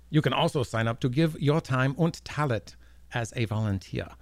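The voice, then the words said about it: Mock German accent. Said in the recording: “he's speaking Germanish. German-esque.”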